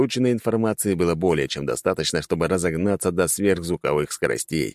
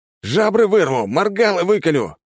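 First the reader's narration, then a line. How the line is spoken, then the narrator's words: Battle shout. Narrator (Russian): крикнул, вступая в бой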